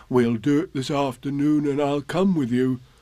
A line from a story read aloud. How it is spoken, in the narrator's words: said Pooh